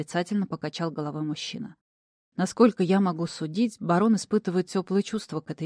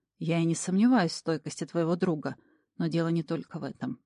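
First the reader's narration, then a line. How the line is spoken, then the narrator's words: Sighing. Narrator (Russian): вздохнул Тэтчерт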